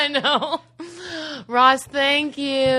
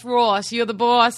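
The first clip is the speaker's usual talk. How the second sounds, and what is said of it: Attempted Australian accent, New Jersey-tinged. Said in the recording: “My Australian accent's gotten even better ... Kind of started very New Jersey.”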